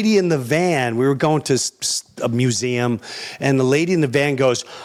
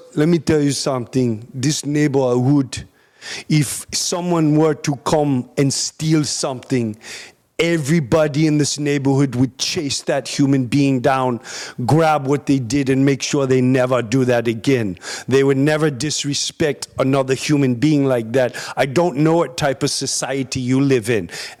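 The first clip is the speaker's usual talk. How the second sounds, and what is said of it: Attempted African accent. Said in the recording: “I don't know how to do an African accent”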